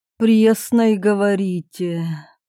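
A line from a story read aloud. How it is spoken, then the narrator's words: Princess sighing. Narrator (Russian): Княгиня вздохнула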